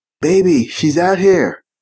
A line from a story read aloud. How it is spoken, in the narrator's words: Bottega yelled